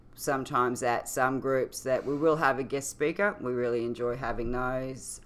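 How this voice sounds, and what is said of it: Australian accent. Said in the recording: “they're always making fun of my accent here ... You have an accent? ... Yeah, apparently I do ... differences you can tell us about from Australia”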